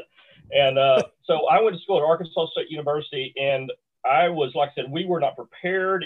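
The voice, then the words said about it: Southern Missouri Bootheel accent. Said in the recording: “I grew up in the Boot Hill of Missouri ... actually 2 miles from Arkansas. So if your listeners are trying to pinpoint that where the accent comes from, that's it.”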